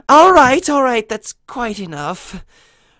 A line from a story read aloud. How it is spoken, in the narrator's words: sighed Rarity